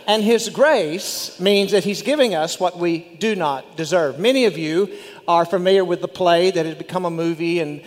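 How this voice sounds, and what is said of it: West Texas accent. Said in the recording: “With my West Texas accent, French is not very easy.”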